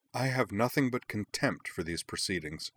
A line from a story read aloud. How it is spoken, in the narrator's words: Umi replied coldly